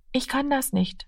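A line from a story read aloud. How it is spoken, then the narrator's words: Quiet. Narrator (German): sagte er leise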